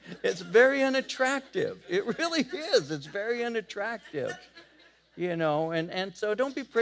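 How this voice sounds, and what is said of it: Usual voice. Nothing is said of it.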